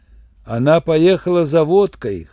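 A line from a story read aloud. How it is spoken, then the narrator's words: Guffawing laughter. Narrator (Russian): хохотал Шурик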